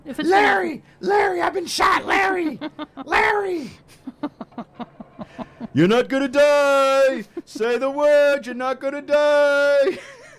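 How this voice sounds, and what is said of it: Impression of shouting movie cop. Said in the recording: “That's actually not a bad impression.”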